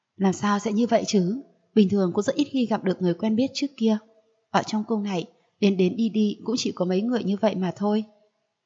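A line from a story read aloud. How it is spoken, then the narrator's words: Suddenly mournful. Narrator (Vietnamese): Đột nhiên giọng nói chợt lên u oán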